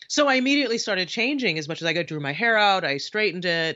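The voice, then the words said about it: Flat neutral American accent. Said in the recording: “CNN American accent that I'm speaking with now ... Where you can't really tell where from America I am ... They're so very flat.”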